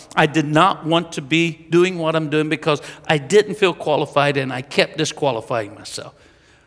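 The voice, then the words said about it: Southern Mississippi American accent. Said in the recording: “I've got a Mississippi Southern accent. ... I talk more like Bill Clinton.”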